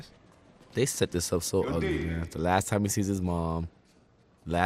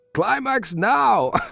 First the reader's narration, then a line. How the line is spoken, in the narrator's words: a male directing it, shouting at us